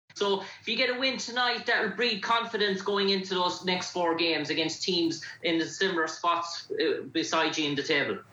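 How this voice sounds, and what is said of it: Irish accent. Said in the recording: “Where are you from? ... Ireland. ... I like your accent. ... I want to learn how to talk like that. ... I was too much listening to your accent.”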